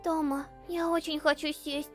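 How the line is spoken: Lifeless voice. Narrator (Russian): сказал Индекс безжизненным голосом

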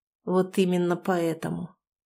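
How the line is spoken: Quiet. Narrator (Russian): Суворов тихо сказал

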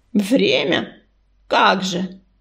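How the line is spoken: Scornful snort. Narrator (Russian): фыркнул Ураган

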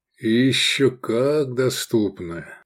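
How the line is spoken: Thoughtful drawl. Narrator (Russian): задумчиво протянул Лобанов

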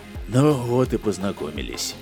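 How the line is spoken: Sighing. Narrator (Russian): вздохнул космолетчик Дэн

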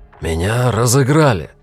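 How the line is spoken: Angry declaration. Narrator (Russian): сердито заявил Кэллом

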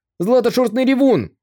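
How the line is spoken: Frightened shout. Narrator (Russian): Один человек испуганно крикнул

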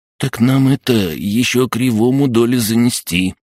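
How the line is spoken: Timid reminder. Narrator (Russian): робко напомнил один из задохликов

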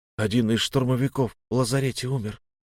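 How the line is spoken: Quiet. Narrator (Russian): тихо сказал мой друг

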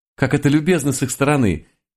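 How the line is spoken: Happy giggle, tiny woman. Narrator (Russian): Счастливо хихикнула крохотная француженка

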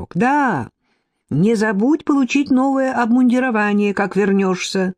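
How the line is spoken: Shout after someone. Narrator (Russian): крикнул вслед ему Когут

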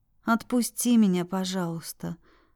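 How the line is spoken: Quiet, near whisper. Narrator (Russian): проговорила тихо, почти на грани шепота

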